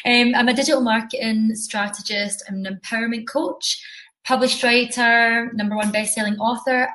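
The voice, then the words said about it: Scottish accent. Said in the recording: “I am from Scotland, as you can tell by the accent.”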